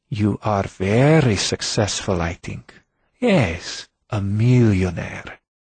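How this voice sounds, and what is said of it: Slavic accent, grave delivery. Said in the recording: “Her Slavic accent and grave delivery”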